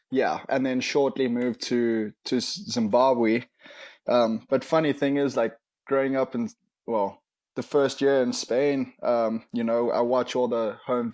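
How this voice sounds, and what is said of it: Heavy South African accent. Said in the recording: “you have a pretty heavy South African accent, as does your dad”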